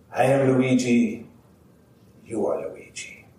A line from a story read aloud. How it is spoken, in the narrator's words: he'd say in a very serious voice